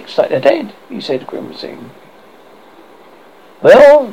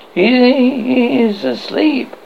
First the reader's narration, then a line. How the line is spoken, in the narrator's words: he stammered